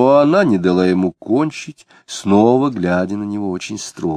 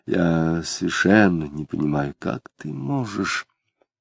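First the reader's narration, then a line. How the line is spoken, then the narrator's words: Quiet. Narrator (Russian): Самгин негромко сказал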